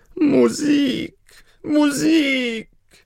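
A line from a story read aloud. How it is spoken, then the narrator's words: Emperor shouting. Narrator (German): schrie der Kaiser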